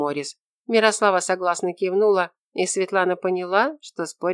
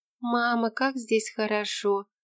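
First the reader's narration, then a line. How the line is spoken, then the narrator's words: Whisper. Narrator (Russian): прошептала Тося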